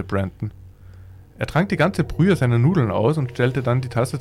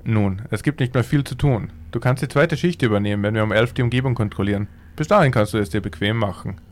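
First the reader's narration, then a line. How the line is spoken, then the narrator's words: Plain. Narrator (German): sagte Mark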